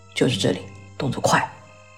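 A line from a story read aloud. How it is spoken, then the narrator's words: Low commanding voice. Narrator (Chinese): 医生低声指挥道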